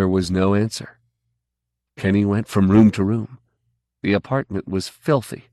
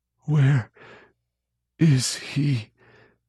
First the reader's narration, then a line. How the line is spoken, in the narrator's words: Kenny Dorchester whispered